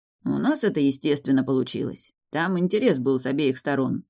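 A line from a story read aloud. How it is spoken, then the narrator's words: Grumbled mutter. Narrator (Russian): пробурчал Раф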